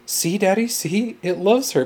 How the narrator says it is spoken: Benjamin exclaimed happily

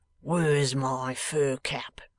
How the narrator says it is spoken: he asks in a surly voice

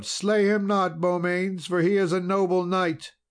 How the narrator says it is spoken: the damsel cried aloud

